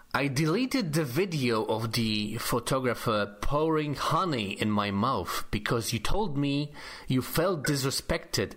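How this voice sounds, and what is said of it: Polish accent. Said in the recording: “with your Polish accent, please. ... With Polish accent.”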